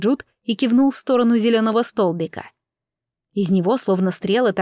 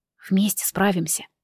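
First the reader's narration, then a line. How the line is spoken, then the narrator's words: Whispered. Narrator (Russian): прошептал он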